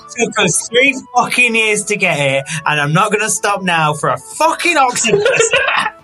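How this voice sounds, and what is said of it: Speaks in a put-on accent. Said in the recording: “had an accent.”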